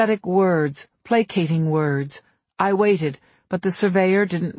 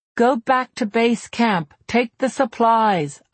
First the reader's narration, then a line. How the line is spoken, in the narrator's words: shouted, trying again